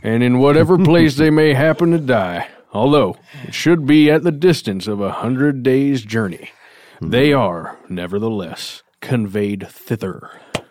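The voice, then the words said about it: Put-on old-fashioned storyteller accent. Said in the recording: “that accent totally had me convinced ... the precision ... it drips like butter ... It's the true voice of history.”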